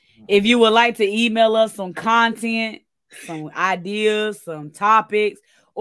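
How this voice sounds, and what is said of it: Congested, allergy-affected voice. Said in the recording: “Lord, I can't talk... these allergies are kicking my butt. I feel like I sound like a straight hole.”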